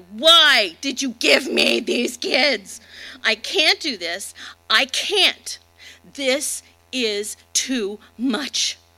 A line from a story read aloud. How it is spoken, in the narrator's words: yelled at God